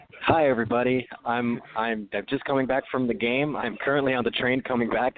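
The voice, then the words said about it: Hoarse, nearly lost voice. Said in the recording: “I lost my voice because Mika Zibanejad made me go crazy.”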